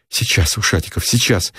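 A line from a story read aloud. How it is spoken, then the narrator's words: Plain. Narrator (Russian): сказал Никитин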